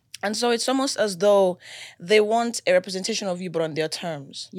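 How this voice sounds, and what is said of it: Nigerian accent. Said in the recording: “I'm Nigerian. ... I'm Nigerian. ... they're like, oh, this accent is cute. ... No, that's how I sound.”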